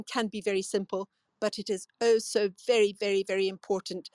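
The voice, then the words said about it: Scottish accent. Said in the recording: “Scottish accent... that accent is incredible”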